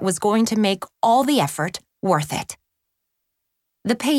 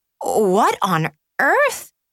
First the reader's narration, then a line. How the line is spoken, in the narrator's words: Chelsea stammered